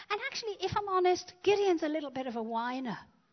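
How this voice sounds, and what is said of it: Australian-sounding pronunciation. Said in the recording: “sounded very Australian”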